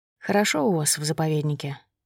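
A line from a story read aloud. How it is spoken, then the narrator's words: Quiet remark. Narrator (Russian): негромко заметил Иван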